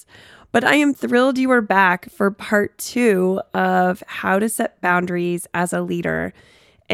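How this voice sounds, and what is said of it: Sick, sniffly voice. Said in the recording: “As you might be able to tell from my voice, I'm a little under the weather, so apologize for a sniffle here and there”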